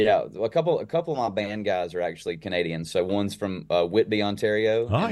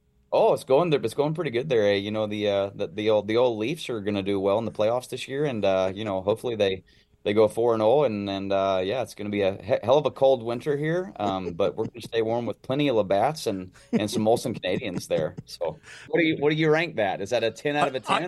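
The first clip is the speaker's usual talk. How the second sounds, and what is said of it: Put-on Canadian accent. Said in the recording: “practicing your Canadian A's? ... I feel like I've gotten the accent down pretty good.”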